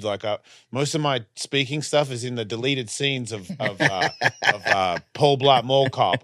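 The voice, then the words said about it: Australian accent. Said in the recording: “It's an Australian guy. And I was like, oh, okay. I mean, I am that. So I don't have to change my accent”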